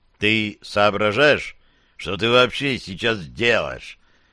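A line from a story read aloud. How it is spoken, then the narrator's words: Stern, genuinely angry. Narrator (Russian): Артур спросил меня строго, даже не играя в разгневанного, а таковым являясь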